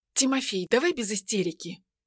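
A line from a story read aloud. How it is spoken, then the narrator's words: Quiet, forced composure. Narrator (Russian): тихо ответила Ведяна, стараясь сохранить необходимое для сыщика хладнокровие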